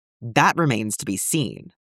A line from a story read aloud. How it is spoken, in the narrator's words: Onimek sneers